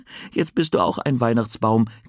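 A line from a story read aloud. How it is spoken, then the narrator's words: Giggling. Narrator (German): kichert er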